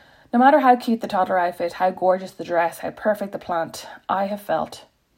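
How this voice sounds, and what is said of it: Usual voice. Nothing is said of it.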